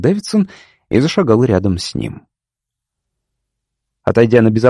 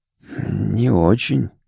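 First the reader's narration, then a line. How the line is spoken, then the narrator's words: Weak voice. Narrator (Russian): ответил Гарвуд слабым голосом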